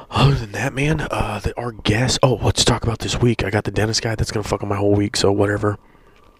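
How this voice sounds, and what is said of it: Speaking in a soft whisper. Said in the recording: “I'm kind of whispering a little bit”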